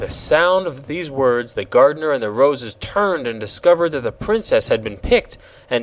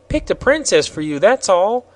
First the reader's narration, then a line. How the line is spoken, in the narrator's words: replied Betsy cheerfully